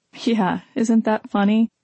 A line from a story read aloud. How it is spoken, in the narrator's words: Talia laughed ruefully